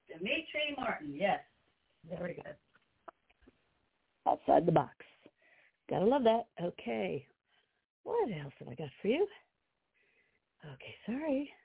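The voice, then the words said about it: Out of breath. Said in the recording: “Out of breath here.”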